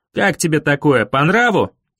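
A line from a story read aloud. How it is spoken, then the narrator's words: Shouted after someone. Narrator (Russian): крикнул он в спину спакла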